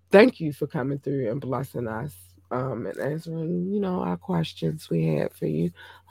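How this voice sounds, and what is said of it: Strained, fading voice. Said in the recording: “losing my voice.”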